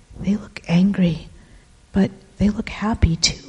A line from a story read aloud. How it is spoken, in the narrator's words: I whisper